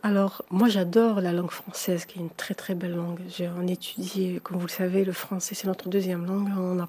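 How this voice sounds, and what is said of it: Slight accent in French. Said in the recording (French): “il y a un petit accent”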